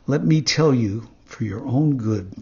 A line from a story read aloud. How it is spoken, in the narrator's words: said the talking cricket in his calm voice